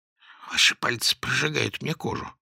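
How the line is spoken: Whisper. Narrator (Russian): прошептал Клочков

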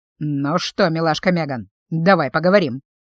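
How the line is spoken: Quietly spoken. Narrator (Russian): негромко произнес Остион

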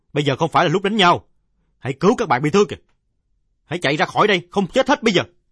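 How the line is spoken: Loud shout. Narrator (Vietnamese): Có ai đó danh Thiệu quát to

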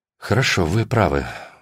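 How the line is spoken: Sighing. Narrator (Russian): вздохнула Алина

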